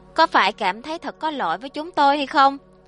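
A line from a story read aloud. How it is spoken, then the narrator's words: Breaking down, wailing. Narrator (Vietnamese): Lâm Xuân Mỹ trong nháy mắt hỏng mất, gào khóc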